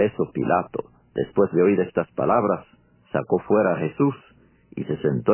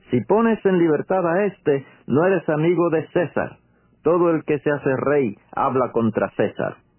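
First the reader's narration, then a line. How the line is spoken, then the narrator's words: Shouted. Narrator (Spanish): los judíos gritaron diciendo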